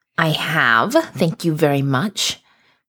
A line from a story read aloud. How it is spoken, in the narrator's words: he growled